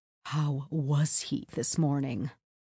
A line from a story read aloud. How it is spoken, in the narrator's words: asked Blair dramatically in a hushed voice